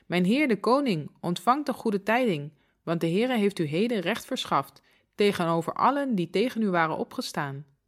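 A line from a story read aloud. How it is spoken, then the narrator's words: Messenger calling out. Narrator (Dutch): De 2e boodschapper riep uit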